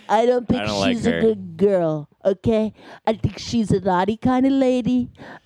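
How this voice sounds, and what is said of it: Imitates another person's voice. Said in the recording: “Why are we doing a Trump impression while doing this?”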